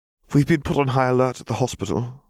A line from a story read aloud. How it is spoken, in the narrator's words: Doria sighed